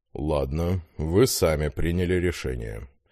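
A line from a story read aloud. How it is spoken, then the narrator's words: Sighed. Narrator (Russian): вздохнул Виталий Юрьевич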